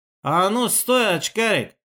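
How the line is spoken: Slightly nasal voice. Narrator (Russian): чуть гнусавый голос Длинного

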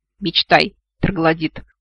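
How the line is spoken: Scornful snort. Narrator (Russian): фыркнула я

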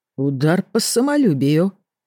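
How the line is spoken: Confused smiling tone. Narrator (Russian): Растерянно улыбнулся Ренальд

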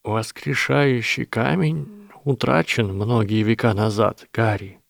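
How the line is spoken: Quiet speech. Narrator (Russian): тихо сказал директор

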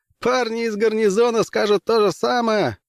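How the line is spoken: Laughing. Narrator (Russian): рассмеялся пилот

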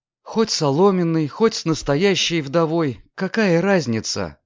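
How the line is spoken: Sad. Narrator (Russian): печально сказала Лидия

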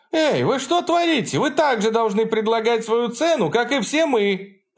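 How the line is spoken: Woman shouting from behind crowd. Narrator (Russian): Позади толпы выкрикнула женщина

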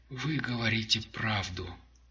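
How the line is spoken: Whisper. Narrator (Russian): прошептал

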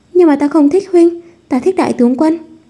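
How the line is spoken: Pleading. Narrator (Vietnamese): Hoa Thành Vũ về mặt cầu xin nói

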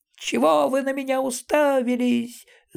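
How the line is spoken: Shrill frightened squeal. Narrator (Russian): завизжал он

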